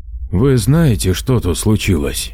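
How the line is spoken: Weary. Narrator (Russian): устало сказал Дмитрий

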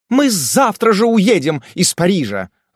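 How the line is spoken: Desperate shout. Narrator (Russian): закричала госпожа Шарбанель в порыве отчаяния

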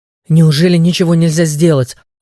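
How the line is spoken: Desperate exclamation. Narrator (Russian): в отчаянии воскликнула Лея

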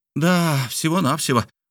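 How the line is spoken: Exclamation. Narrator (Russian): воскликнул Мишель Ардан

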